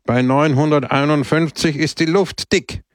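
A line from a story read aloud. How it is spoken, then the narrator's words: Loud speech. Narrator (German): sagte er laut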